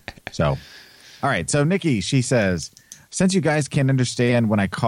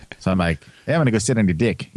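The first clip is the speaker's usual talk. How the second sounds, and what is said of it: Put-on New Zealand accent. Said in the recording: “I'm just doing a really good New Zealand accent... I just feel like I'm doing a really good accent”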